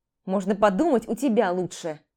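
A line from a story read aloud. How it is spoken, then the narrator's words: Snapped back. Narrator (Russian): Огрызнулся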